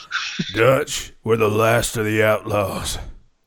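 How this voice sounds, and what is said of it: Imitation of Arthur Morgan character voice. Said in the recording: “In an Arthur Morgan voice ... that's a good impression”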